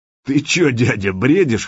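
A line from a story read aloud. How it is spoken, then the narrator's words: Chuckling. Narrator (Russian): хохотнул Володя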